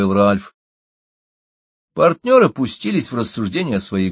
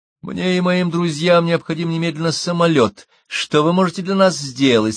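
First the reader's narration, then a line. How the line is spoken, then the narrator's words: Plain. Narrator (Russian): спросила Чита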